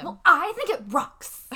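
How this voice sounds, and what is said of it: Impression of Lily. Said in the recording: “my Lily impression”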